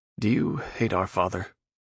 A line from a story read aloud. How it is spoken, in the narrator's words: Darkin sighed